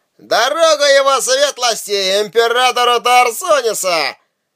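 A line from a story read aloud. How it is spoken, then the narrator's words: Loud shouting. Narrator (Russian): громко крича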